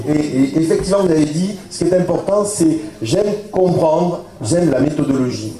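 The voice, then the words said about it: Southern French accent. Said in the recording (French): “C'est mon accent du sud”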